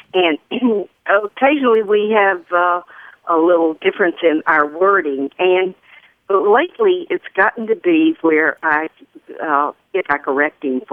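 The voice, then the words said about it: Southern US accent. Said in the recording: “as you may have caught a little glimpse of this accent, I'm Southern.”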